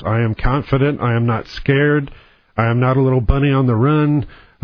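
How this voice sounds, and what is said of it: Calm, steady voice. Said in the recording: “hear the calm in my voice.”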